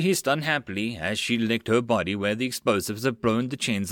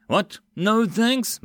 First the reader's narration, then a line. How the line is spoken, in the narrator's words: Mills sighed dramatically